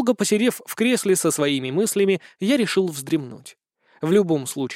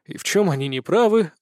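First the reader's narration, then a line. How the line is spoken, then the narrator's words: Tired chuckle. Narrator (Russian): устало усмехнулся я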